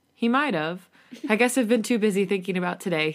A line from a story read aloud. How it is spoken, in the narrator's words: he chuckles